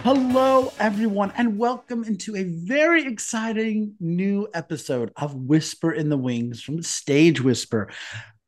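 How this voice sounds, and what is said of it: Excited, enthusiastic voice. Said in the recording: “If you can't tell from my voice, I'm like over the moon about this episode today”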